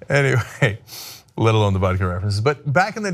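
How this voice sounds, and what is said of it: Usual voice. Nothing is said of it.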